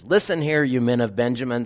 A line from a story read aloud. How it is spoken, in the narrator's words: Saul shouted at his officers